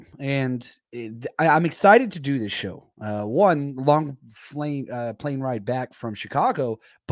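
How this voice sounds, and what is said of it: Hoarse, worn-out voice. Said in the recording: “my voice is a little bit gone just from screaming so much”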